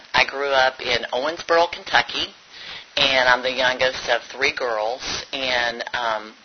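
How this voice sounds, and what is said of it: Kentucky accent with a twang. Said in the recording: “that twang you hear is a Kentucky accent.”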